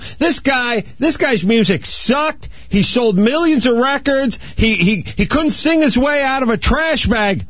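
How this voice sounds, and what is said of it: Yelling, angry ranting delivery. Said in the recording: “That's why I'm yelling about him! ... That's why I'm yelling.”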